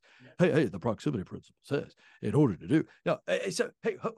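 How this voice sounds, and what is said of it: Impression of John Maxwell. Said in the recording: “in my Maxwell voice ... that's pretty good”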